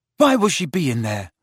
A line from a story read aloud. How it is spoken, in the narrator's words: asked Ron anxiously